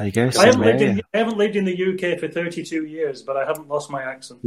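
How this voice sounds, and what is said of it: Lancashire English accent. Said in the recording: “where would you think I'm from with this accent? ... Rochdale near Manchester ... Great Harwood near Blackburn”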